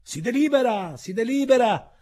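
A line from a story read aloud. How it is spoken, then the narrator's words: Nervous shout. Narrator (Italian): un poco pallido, gridò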